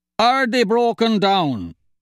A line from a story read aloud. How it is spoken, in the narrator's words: Cahill's father shouted